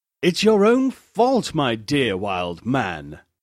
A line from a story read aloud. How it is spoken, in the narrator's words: said he